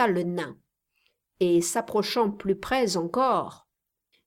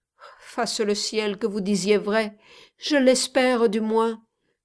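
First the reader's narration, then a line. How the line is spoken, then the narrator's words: Old man, moaning. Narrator (French): dit le vieillard avec une sorte de gémissement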